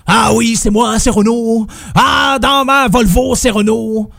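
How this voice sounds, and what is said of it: Imitates another person's voice. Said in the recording (French): “je suis pas nécessairement très très bon pour faire des, euh, imitations.”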